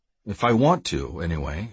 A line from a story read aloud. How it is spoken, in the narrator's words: I said smoothly